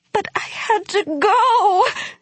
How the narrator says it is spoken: she wailed

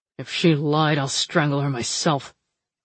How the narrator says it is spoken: Fox grumbled

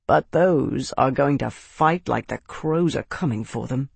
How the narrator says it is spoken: Max said, his voice grim

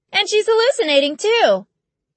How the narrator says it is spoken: Bree cried

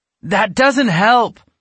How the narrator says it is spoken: Alex exclaimed

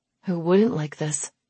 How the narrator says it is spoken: let out a sigh

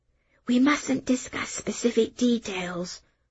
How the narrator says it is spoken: I whispered

